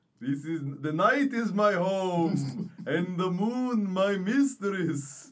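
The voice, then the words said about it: Theatrical put-on accent. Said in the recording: “God damn your accent!”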